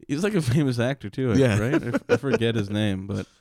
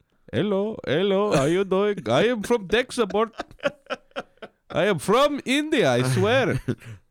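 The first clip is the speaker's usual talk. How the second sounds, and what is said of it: Put-on Indian accent. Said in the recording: “play the Indian guy again ... that accent”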